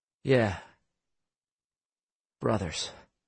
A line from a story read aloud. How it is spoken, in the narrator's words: in a low voice, he said